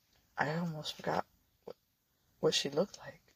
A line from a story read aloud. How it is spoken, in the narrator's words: whisper